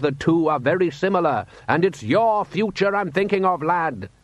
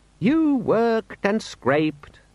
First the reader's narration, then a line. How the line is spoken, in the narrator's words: said Les wearily